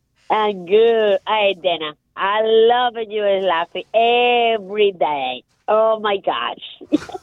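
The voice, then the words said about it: Foreign-accented English. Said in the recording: “I love your accent”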